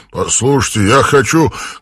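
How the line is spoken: Shout. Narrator (Russian): крикнул Брайан Квок

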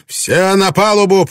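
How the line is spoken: Shouted. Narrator (Russian): прокричал Блэкторн

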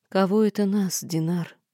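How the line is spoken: Sad question. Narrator (Russian): грустно спросила я

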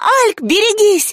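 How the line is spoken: Shriek. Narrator (Russian): завизжала Рыска

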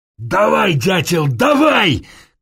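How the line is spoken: Shouting. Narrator (Russian): кричал

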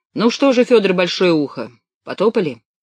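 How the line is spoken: Sighing. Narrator (Russian): Левка вздохнул

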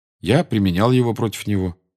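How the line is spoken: Calm reply. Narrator (Russian): спокойно ответил Гарри

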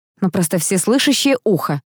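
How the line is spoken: Wry snort. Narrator (Russian): хмыкнула я

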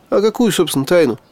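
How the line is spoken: Skeptical snort. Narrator (Russian): хмыкнул я

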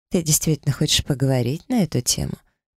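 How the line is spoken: Mocking inquiry. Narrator (Russian): насмешливо поинтересовалась Сиена

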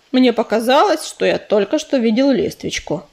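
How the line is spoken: Plain. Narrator (Russian): сказал он

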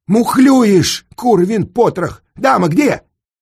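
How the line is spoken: Angry shout. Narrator (Russian): один игрок как крикнет

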